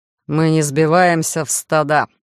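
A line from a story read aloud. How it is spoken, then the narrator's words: Icy voice from doorway. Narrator (Russian): ледяным тоном прозвучало со стороны дверного проема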